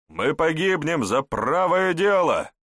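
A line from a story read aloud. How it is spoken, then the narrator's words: Encouraging smiling shout. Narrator (Russian): с ободряющей улыбкой крикнул магистр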